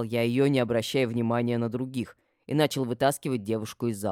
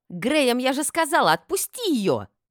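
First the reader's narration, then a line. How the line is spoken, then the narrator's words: Yell. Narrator (Russian): завопила Гортензия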